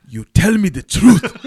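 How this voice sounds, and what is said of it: Mock African accent. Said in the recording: “this African accent”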